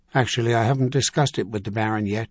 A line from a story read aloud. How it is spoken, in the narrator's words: he said